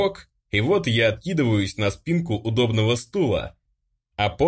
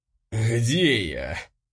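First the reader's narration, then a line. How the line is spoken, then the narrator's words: Pained wheeze. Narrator (Russian): Страдальчески прохрипел я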